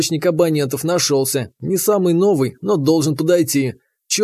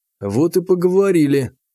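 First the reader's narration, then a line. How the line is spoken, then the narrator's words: Sighing. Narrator (Russian): вздохнул я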